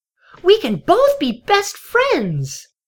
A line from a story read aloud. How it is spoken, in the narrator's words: the little ponies cried in unison